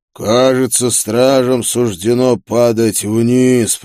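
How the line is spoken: Growled. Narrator (Russian): прорычал демон

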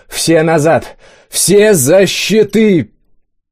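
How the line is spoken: Childlike yell, wounded man. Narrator (Russian): По-детски заорал первый раненый

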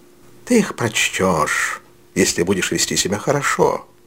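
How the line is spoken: Gentle old man. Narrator (Russian): ласково сказал старый джентльмен

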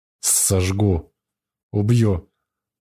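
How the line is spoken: Growling through teeth. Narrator (Russian): спокойствия обычного не теряя, пожелтел весь, глаза прищурил и сквозь зубы рычит

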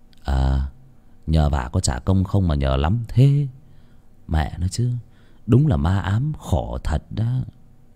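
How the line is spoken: Muttering. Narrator (Vietnamese): Tuấn lẩm bẩm

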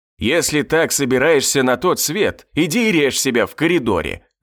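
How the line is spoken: Gloating growl in face. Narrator (Russian): зарычал ей прямо в лицо, со злорадством

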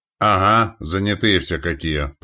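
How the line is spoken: Gunner's grumble. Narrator (Russian): проворчал пушкарь

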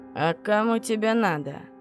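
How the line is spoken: Man's unexpectedly deep bass. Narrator (Russian): Спросил мужчина неожиданно густым басом, не вяжущимся с его почти женскими чертами лица

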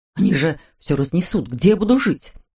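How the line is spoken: Frightened question. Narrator (Russian): спросил он испуганно

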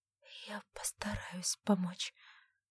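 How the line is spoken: Whisper. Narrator (Russian): прошептала она

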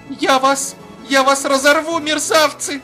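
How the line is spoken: Desperate shout. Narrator (Russian): выкрикнула Серафима Яковлевна таким отчаянным голосом

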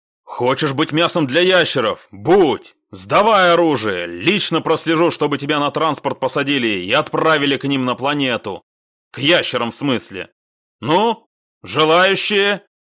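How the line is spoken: Heated shouting. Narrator (Russian): Запальчиво кричал Финкельштейн

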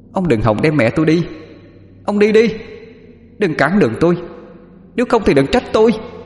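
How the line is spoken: Young girl screaming. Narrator (Vietnamese): Con bé lại thét lên

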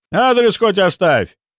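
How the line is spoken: Shouted after someone. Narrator (Russian): крикнул я вдогонку

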